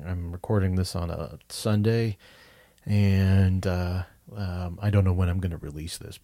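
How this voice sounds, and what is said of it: Voice sounds sick. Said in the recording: “I apologize for my voice. I think I'm coming down with something.”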